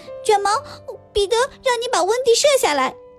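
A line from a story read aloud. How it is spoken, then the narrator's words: Sudden shout. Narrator (Chinese): 他突然大喊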